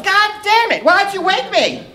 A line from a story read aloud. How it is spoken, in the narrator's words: open up her eyes and yell